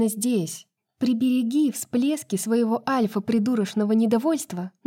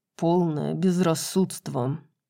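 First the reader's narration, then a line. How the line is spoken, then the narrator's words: Through clenched teeth. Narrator (Russian): процедил сквозь зубы Хант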